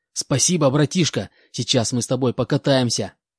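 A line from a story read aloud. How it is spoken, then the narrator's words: Joyful. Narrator (Russian): Радостно сказал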